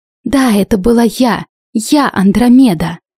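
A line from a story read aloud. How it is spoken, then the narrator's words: Forced out. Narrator (Russian): Выдавила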